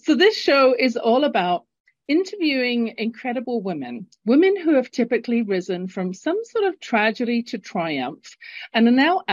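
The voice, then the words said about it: English accent from London. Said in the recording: “if you're listening to my accent and thinking, where the heck is she from? ... Originally born in London, England, and living in Calgary, Canada”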